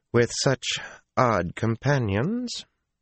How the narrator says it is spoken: an arrogant, if beautiful woman said coolly

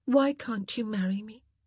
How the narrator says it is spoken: She asked in a low voice

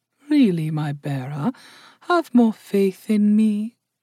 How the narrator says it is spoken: purred Indali

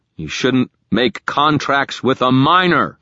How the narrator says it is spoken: I shouted back

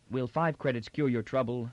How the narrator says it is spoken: said Toran dryly

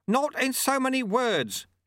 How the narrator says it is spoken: shouted Lutse

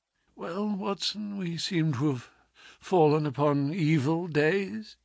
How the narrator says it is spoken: said he, in a feeble voice, but with something of his old carelessness of manner

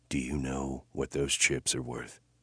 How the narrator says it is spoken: whispered in her ear

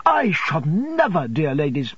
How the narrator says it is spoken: I exclaimed, relieved of an immense load of apprehension

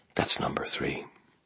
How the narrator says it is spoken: shaking, I said very quietly

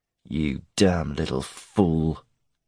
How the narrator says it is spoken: he growled, his jaw clenched

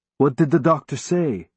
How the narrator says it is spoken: he asked

